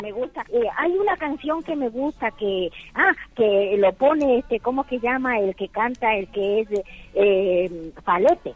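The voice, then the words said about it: Coastal Ecuadorian Spanish accent. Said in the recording (Spanish): “¿Tu acento? ¿De dónde eres? ... Soy de Ecuador, pero de la parte de la costa de Guayaquil.”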